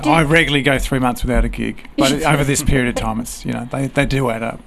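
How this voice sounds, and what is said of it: Australian accent with a twang. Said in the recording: “the Australian bloke ... From my twang, you can tell I'm not from here, from Australia”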